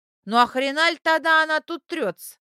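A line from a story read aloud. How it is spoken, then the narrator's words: Snapping retort. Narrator (Russian): огрызнулась Люся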